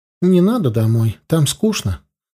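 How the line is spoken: Plain. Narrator (Russian): сказала она

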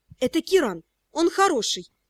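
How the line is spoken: Whispered in ear. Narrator (Russian): сообщила мне на ухо шепотом Брита

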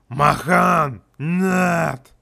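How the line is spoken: Hurried growl. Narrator (Russian): Успела прорычать эта медвежуть

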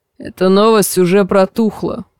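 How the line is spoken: Gruff mutter. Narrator (Russian): буркнул лысый

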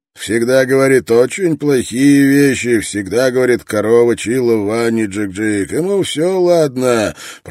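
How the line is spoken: Grumbling. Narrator (Russian): проворчал Строн

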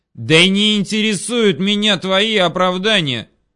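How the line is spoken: Yelling. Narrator (Russian): заорал Петров

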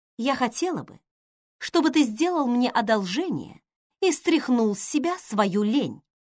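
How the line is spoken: Sharp. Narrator (Russian): сказала она резко

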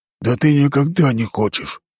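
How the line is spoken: Growled. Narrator (Russian): рыкнул на него четвертый

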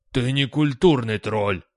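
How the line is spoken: Barking. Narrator (Russian): рявкнул утес

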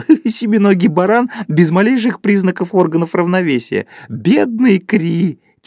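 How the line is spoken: Sudden laughing speech. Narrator (Russian): Кто-то вдруг захохотал и сказал

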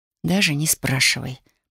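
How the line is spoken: Awkward whisper. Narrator (Russian): прошептала я, неловко

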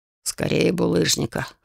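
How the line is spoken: Troll's snorting reply. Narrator (Russian): хмыкнул в ответ тролль

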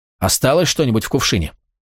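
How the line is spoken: Sudden question. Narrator (Russian): Жрица неожиданно спросила

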